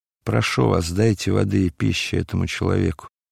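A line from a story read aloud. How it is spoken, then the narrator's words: Weak voice. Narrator (Russian): Варава слабым голосом сказал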